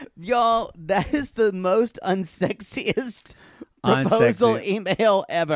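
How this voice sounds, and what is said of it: Usual voice. Nothing is said of it.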